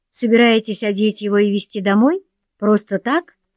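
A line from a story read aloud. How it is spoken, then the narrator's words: Contemptuous laugh, young man. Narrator (Russian): молодой человек презрительно рассмеялся и сказал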